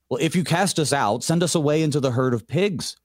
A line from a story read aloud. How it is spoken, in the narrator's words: the demons begged him, saying